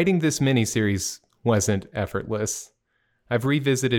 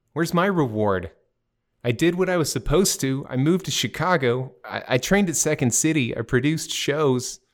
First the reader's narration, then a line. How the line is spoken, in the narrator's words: I blurt out